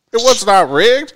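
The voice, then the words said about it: Imitates another person's voice. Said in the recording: “can I do a Joe Biden voice? ... I don't know what that dude sounds like.”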